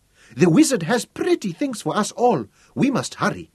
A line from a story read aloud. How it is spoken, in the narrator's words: squeaked